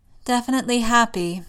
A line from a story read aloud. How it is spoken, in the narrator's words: May sighs